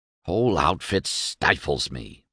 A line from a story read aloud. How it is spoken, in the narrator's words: he snapped